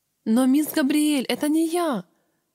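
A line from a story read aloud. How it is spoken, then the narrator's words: Whimpering, overly loud. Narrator (Russian): Захныкала я громче, чем было необходимо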